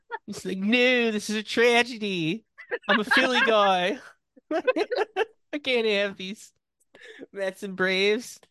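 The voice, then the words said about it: Put-on Philly accent. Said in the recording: “the Philly accent”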